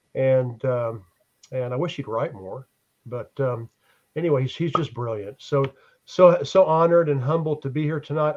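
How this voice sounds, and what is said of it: Hoarse voice from laryngitis. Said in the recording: “I apologize for my laryngitis. I apologize for coughing.”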